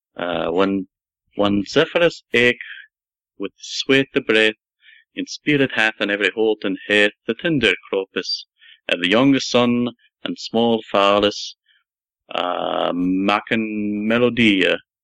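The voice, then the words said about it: Dramatic Middle English accent recitation. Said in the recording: “you're just a dialect machine ... That's actually not just straight um, Middle English accent, but like ... as if you're telling a story ... Dramatic.”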